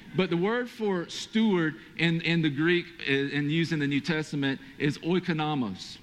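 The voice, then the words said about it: Southern Georgia accent with Hispanic tinge. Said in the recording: “it was because of my accent, right? ... it comes with a Georgia/Hispanic accent”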